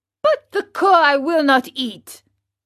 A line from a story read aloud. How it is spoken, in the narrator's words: cried Pinocchio in an angry tone